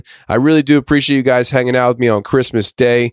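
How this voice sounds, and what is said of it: Hoarse, failing voice. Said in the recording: “sorry about my voice here in the intros and the outros. My voice is actually going. Yeah, I'm catching a cold actually.”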